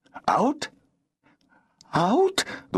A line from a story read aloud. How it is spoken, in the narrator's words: The woman's voice quavered